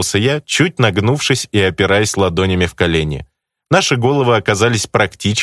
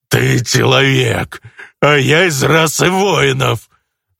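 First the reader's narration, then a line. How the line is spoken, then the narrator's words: Angry growl. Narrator (Russian): Зло рыкнул парень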